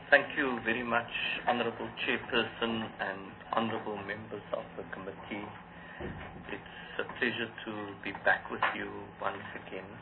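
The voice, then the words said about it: Hoarse, strained voice. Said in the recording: “I'm suffering from a bit of laryngitis, so you must forgive my voice”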